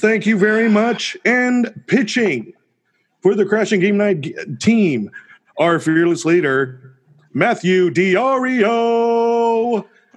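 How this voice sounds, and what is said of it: Booming sports announcer voice. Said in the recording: “you are getting my announcer voice”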